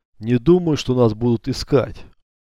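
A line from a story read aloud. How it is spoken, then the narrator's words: Calm authoritative. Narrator (Russian): как всегда спокойно и авторитетно заявил бурят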